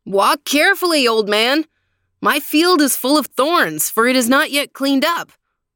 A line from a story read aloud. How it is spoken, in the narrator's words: The owner of the field cried out from a distance